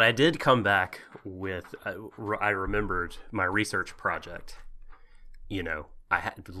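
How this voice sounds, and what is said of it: Usual voice. Nothing is said of it.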